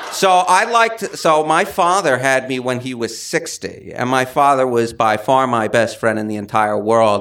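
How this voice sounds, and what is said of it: Old-fashioned New York City accent. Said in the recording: “this type of 1920s New York City accent. And it's 100% real.”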